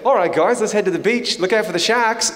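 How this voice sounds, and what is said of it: Attempted Australian accent. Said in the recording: “I've been working on my Australian accent too... this doesn't sound like you”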